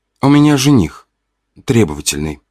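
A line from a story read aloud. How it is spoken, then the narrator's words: Princess's sigh. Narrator (Russian): вздохнул княжна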